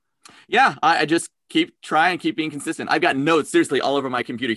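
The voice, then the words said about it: Talks very fast. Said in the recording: “I talk really fast. ... So then, why are you copying? Why are you copying New Yorkers?”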